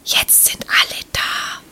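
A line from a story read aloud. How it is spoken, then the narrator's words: Breathy whisper. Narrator (German): Jola hauchte diese Worte nur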